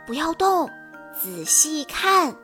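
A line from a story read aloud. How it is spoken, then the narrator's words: Hushed voice. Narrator (Chinese): 弗洛压低了嗓门说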